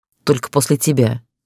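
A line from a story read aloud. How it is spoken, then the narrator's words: Snapping. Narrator (Russian): огрызнулась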